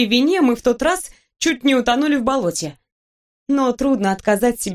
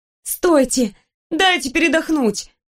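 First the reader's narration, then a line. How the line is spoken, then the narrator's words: Breathless pleading. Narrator (Russian): Задыхаясь, взмолилась я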